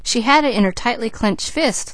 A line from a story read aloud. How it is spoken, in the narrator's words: laughed Douglas